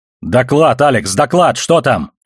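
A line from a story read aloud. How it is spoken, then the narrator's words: Shout. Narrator (Russian): крикнул Холден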